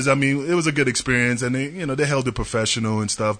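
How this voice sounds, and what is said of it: New York accent. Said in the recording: “my New York accent, orbs and herbs, come out the wrong way”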